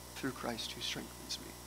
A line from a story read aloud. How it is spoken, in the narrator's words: inwardly whispering